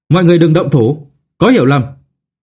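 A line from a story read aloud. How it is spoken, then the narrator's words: Loud urgent call. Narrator (Vietnamese): Tiêu Vọng cao giọng hô lớn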